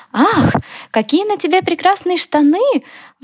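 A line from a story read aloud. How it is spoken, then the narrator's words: Old hedgehog exclaiming. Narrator (Russian): воскликнул старый еж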